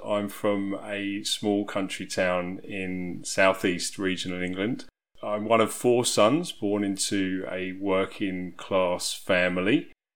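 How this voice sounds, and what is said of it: English accent. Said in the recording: “You'll probably be able to tell from my accent that I'm from England.”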